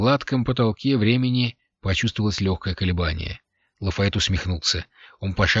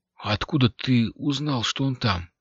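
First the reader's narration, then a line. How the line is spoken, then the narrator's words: Whispered. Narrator (Russian): прошептал Якобамб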